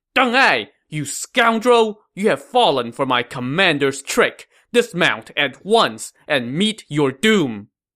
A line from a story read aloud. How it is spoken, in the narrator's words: who shouted